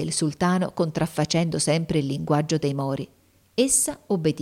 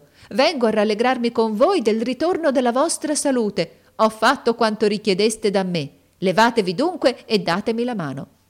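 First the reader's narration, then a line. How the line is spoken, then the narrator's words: Shouting. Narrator (Italian): gridò essa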